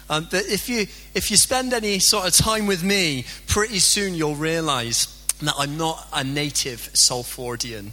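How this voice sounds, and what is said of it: Strong Bristolian English accent. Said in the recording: “I've got a really strong Bristolian accent”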